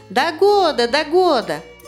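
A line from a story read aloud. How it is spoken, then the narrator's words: Crowd shouting. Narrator (Russian): И все закричали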